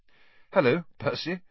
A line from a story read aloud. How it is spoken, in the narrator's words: said Harry, trying not to laugh